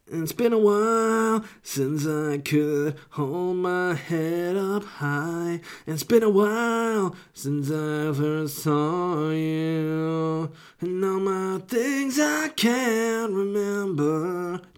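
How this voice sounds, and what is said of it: Imitates another person's singing voice. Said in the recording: “stain impression ... Decent for a first stab.”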